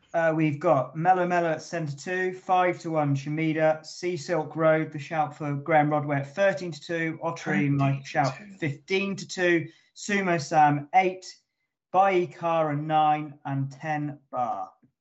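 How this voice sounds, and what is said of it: Bookmaker's price-calling voice. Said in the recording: “In your best accent that could be a bookmaker”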